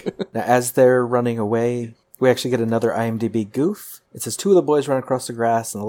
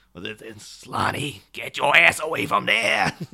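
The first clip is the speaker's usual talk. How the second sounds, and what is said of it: Imitates another person's voice. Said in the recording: “cracks out his best Harvey Firestein impersonation.”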